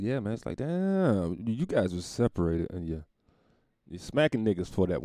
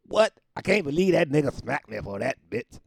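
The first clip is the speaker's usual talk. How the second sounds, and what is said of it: Imitates another person's voice. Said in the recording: “my Chris Rock impersonation. ... pretty bad,”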